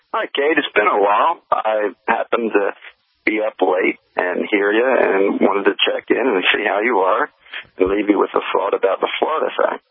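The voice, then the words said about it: Eastern US accent. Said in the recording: “accent. Another Easterner. I love that accent.”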